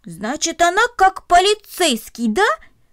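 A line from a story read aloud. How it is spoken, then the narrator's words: Joyful, pleased exclamation. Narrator (Russian): радостно воскликнул он, довольный своим открытием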